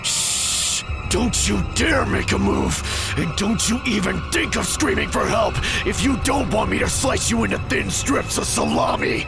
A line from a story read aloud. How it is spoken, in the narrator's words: menacingly, and with teeth clenched, he said